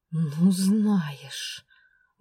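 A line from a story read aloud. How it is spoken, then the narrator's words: Indignant hiss. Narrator (Russian): возмущенно прошипела я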